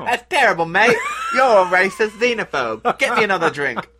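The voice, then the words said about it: Put-on British, Australian-sounding accent. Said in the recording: “you doing a British accent? ... Although I think I was more Crocodile Dundee there.”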